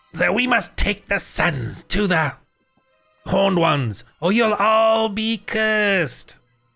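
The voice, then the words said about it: Scratchy throaty character voice. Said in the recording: “I'm getting a scratch because I always do that voice ... I'm always tickling my back of my throat with that same voice”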